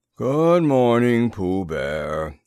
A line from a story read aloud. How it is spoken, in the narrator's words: said Eeyore gloomily